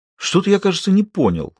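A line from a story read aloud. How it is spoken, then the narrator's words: Indignant pronouncement. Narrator (Russian): возмущенно изрек Грир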